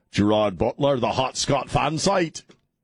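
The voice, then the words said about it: Bad put-on Scottish accent. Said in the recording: “That was the worst Scottish accent I've ever done in my life.”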